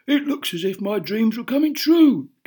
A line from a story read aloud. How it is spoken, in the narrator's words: gasped Bomba, puffing up behind